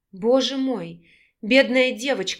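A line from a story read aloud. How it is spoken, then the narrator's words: Horrified, tearful rasp. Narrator (Russian): с ужасом и слезами на глазах прохрипела Вика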